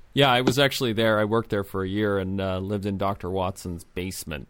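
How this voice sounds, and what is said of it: American accent. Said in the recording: “I went to Eton. Despite the American accent.”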